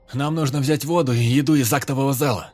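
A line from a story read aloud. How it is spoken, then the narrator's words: Loud. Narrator (Russian): громко проговорил он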